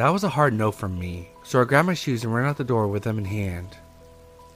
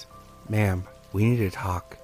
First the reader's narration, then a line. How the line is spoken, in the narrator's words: He says in a low, calm voice